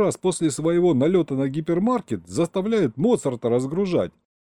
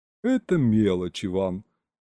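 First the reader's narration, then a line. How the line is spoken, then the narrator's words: Sighing. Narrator (Russian): вздохнул бухгалтер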